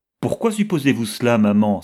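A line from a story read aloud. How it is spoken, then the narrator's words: Exclaimed. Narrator (French): s'écria Violette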